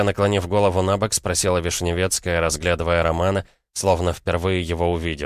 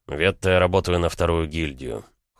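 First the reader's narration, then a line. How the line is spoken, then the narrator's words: Cold frank reply. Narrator (Russian): холодно ответил он, не видя смысла что-то скрывать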